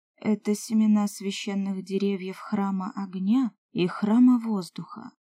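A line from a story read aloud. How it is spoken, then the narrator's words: Plain. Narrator (Russian): ответила Аэрдри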